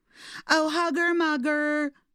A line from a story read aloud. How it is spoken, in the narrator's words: snailies would shout